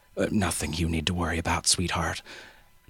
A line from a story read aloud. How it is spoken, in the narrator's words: murmur